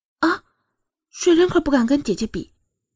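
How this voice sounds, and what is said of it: Soft, quiet voice. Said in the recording (Chinese): “小声的说道”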